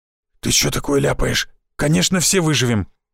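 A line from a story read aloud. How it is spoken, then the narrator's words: Frightened hoarse blurt. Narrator (Russian): испуганно выпалил хриплый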